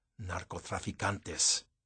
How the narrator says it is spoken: he muttered

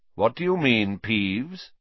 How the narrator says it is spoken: said Dumbledore calmly

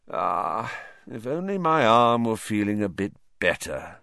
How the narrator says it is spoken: he sighed

